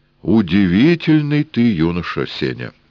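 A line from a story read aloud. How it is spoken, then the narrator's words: Solemn. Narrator (Russian): торжественно сказал Эраст Петрович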